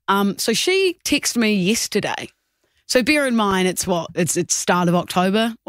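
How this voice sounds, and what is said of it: New Zealand accent. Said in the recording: “Obviously, I'm from New Zealand, Kia ora, if you didn't tell by the accent.”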